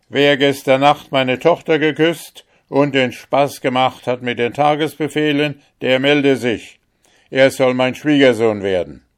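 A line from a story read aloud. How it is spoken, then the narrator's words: Loud voice. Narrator (German): sprach mit lauter Stimme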